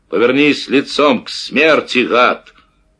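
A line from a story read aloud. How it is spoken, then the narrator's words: Loud. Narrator (Russian): Макар громко сказал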